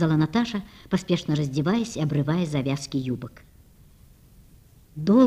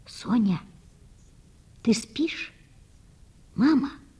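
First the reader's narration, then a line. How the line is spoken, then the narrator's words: Whispering. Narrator (Russian): прошептала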